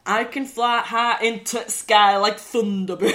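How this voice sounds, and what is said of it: Bad put-on Yorkshire accent. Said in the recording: “a really strong Yorkshire accent ... Can you do a Yorkshire accent? ... Very badly.”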